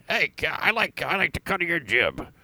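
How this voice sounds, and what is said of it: Imitates another person's voice. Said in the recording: “Robert Loggia ... Oh, that's a good impression.”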